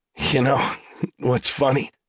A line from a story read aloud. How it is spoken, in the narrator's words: Talbert said, his voice becoming slurred